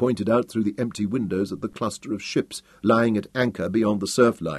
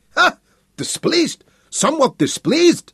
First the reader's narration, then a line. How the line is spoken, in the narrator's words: shrieked van der Velde, gasping for breath like a stranded fish